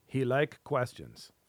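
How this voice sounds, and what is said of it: Sudden put-on accent. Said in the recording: “Where did this accent come from all of a sudden?”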